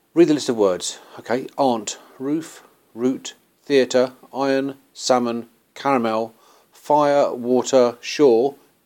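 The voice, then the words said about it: Mid-range West London English accent. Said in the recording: “my normal spoken accent rather than my proper cockneyfied accent or my posher accent, this sort of mid-range ... I'm from Hayes in Middlesex, West London”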